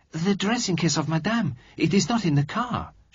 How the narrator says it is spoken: she exclaimed

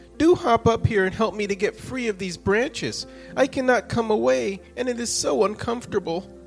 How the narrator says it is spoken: cried the wind

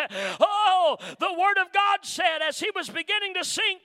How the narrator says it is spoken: Peter cried, saying,

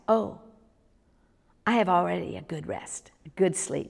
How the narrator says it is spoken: she answered in her thick Dutch accent

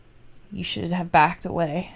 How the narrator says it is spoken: He finally muttered

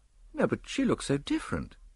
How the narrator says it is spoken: I replied rather feebly

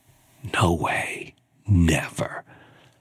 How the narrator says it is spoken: I whispered to myself

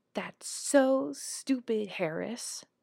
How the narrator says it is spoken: Lewis exclaim with laughter in his voice

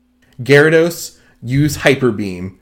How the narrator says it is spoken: Misty said plainly

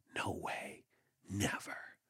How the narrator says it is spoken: I whispered to myself

